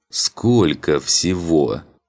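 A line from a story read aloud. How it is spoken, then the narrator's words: Helpless moan. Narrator (Russian): только и смог простонать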